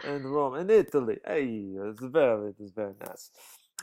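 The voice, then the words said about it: Deliberately bad put-on foreign accent. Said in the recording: “that was a terrible accent.”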